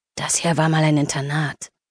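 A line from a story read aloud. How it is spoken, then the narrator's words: Low murmur. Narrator (German): raunte Patrick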